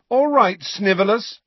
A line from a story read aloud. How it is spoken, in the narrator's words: said James loudly